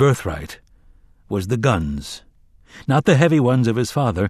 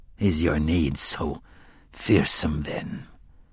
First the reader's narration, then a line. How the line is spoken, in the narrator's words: Court muttered as if in his sleep